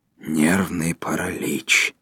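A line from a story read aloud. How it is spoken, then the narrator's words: Very quiet. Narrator (Russian): сказал второй очень тихо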